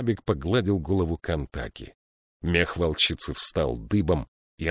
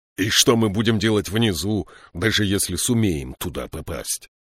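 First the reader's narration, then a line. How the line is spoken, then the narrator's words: Growled. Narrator (Russian): прорычал Слудик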